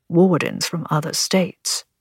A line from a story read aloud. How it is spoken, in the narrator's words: he murmured back